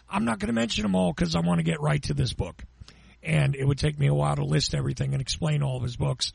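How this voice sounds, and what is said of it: Slightly weak, off voice. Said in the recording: “my voice is still a little off. I'm still a little weak”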